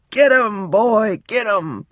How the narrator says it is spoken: I was the fearless hunter, screaming and yelling as loud as I could

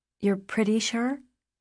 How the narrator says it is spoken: I said

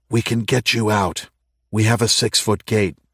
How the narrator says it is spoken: whispered through it to Bill

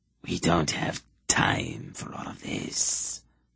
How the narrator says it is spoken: the hiss said

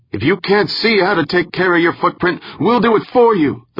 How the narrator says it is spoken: the woman shouted

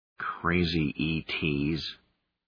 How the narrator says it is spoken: Fibbin muttered

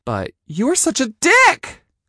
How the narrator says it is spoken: I said, my voice going high

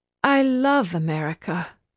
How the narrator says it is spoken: Nayeli sighed

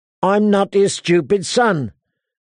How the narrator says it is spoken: said Arya furiously

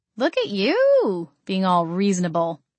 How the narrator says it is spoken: I chuckled

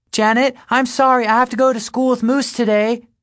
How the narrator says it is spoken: I hear her yell

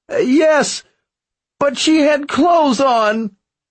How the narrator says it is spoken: he whined

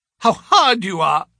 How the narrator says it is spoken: she cried

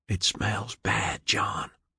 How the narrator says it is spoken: Maury whispered

